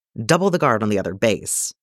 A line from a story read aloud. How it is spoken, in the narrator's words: Tor says sharply